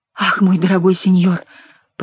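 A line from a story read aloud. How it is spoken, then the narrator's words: Muttering. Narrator (Russian): пробормотала Жанна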